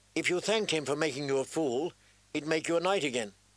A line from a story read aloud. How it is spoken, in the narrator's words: Sansa said sharply